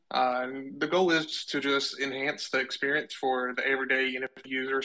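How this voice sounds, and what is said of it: Southern US accent. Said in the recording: “with that accent, I know that you're somewhat in my neck of the woods. I'm in the South... You're from Kentucky, right?”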